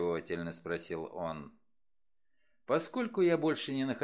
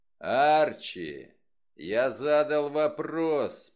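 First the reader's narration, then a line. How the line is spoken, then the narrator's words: Roared. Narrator (Russian): проревел он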